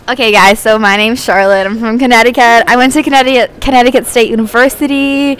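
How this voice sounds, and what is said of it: Put-on American accent. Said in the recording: “she decided that she was American ... put on this full accent ... do the accent for us”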